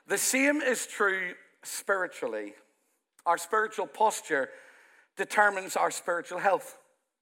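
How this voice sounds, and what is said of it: Thick Irish accent. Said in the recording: “a very thick Irish accent”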